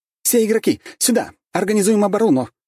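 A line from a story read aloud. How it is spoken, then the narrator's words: Elf archer's shout. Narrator (Russian): закричала эльфийка-лучница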